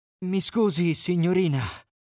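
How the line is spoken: Panting. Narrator (Italian): ansimò

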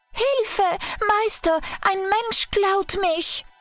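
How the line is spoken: Magic harp screaming. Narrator (German): Die magische Harfe schrie

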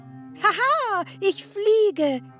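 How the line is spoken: Laughing. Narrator (German): lachte sie

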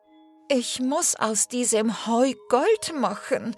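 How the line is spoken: Sighing. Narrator (German): seufzte Sophie

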